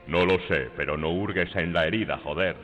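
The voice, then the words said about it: Child character with deep man's voice. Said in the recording (Spanish): “el niño con voz de hombre ... ¿A doblar a Clint Eastwood?”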